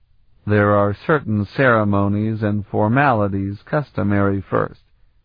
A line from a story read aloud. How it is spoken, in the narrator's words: Sparhawk explained dryly